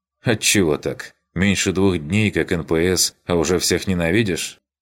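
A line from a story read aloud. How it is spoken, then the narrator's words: Skeptical snort. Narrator (Russian): Хмыкнул я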